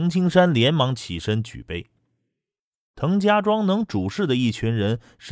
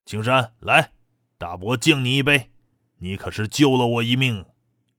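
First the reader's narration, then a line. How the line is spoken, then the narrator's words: Smiling. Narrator (Chinese): 滕永香也笑着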